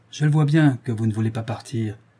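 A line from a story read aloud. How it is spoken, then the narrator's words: Father's curt tone. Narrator (French): dit le père d'un ton sec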